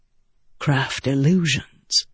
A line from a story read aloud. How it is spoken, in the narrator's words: Adolin said softly